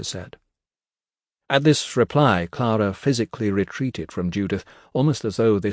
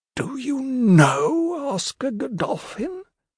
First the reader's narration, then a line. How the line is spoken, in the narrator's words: she said, her tone appalled